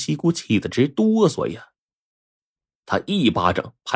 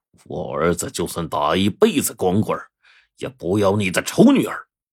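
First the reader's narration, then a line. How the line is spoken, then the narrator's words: Through gritted teeth. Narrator (Chinese): 他咬牙切齿的说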